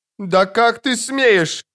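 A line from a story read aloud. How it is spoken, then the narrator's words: Screaming. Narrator (Russian): завопила Матрона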